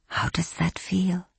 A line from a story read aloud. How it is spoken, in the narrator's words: she breathed into his ear